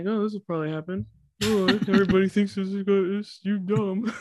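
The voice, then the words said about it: Imitates several other people's voices. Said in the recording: “that is what we all sound like. Perfect. That's like such a good impression of four people at once.”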